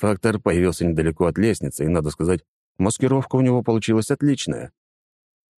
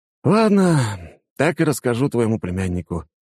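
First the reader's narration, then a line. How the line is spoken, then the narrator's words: Sigh. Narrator (Russian): вздохнул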